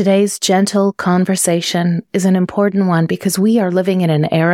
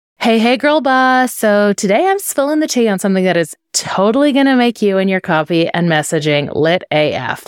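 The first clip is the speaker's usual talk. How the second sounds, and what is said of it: Bubbly girl-boss persona voice. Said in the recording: “in this brand voice”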